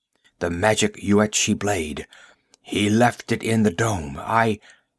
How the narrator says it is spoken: His voice died suddenly

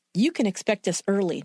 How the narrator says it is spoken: Noller said in a clipped tone

